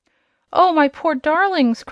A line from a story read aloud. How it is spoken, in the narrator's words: cried the queen, with a sob of anguish